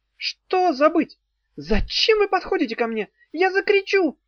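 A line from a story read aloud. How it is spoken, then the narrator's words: Shrieking. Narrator (Russian): взвизгнула Зозо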